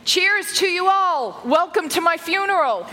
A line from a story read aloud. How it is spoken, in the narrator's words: Belgian dad David Bertin yelling